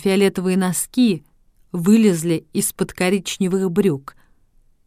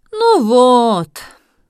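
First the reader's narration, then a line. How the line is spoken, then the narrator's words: Students sighing. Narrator (Russian): вздохнули студенты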